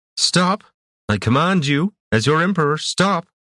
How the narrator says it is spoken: the puppet called out

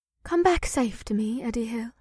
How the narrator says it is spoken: she breathed

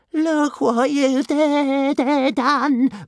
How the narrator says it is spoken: moaned Toothless

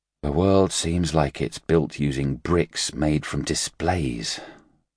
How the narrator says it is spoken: Luo Ji sighed

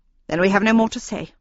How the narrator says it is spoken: she announced in a haughty tone of voice

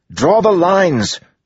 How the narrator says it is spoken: Joel yelled

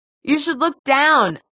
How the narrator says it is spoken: Jay shouted

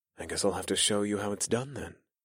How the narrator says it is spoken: I whispered

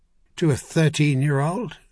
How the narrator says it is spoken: Merlin laughed

